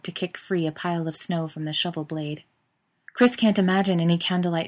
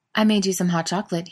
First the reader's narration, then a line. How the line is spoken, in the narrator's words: he mentions